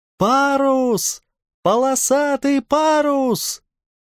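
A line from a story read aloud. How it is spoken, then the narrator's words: Shouted. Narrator (Russian): закричал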